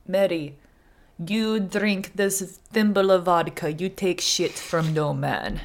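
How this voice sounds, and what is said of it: Heavy put-on Russian accent. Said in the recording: “I gave him such a hard Russian accent”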